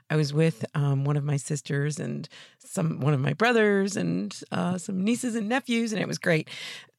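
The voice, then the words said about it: Slightly raspy, worn voice. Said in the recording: “You might hear in my voice a little bit that I was with family yesterday because I was talking and talking and talking ... I'm feeling the effects this morning ... just a little raspier than usual”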